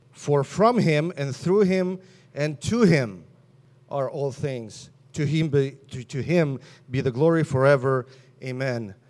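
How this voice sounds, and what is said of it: Slight foreign accent in English. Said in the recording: “hear a hint of accent in my English, you're absolutely correct ... Soviet Union is where I came from originally”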